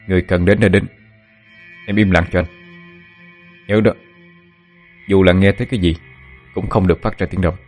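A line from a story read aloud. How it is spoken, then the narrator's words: Stern. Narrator (Vietnamese): Phượng Thánh nghiêm giọng nói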